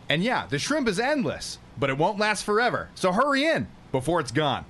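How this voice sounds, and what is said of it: Commercial voiceover voice. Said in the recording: “The Red Lobster. You ever heard the Crab Fest? ... That's his stupid voice.”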